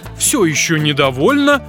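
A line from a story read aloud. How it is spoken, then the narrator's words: Exclaiming machine voice. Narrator (Russian): воскликнула машинка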